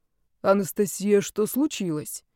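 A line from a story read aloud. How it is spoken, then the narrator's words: Quiet question. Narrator (Russian): тихо спросил Карл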